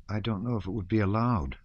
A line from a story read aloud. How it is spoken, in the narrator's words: replied the officer in a weak voice